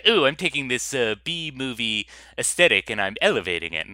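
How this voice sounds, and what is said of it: Poor attempt at Spanish accent. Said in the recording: “I don't know why I'm giving him that voice, because I can't do a Spanish accent.”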